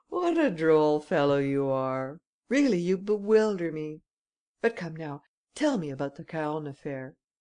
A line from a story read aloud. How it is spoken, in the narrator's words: Ganimard laughed as he said